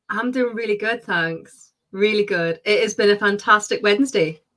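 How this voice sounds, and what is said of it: Distinct UK regional accent. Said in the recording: “maybe not if you're out of the UK or whatever it is, but she's got a very distinct accent”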